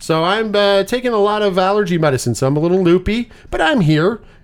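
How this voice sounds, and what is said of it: Congested, stuffy voice. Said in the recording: “if I sound a little weird, I'm very congested. Allergies have now hit me hard.”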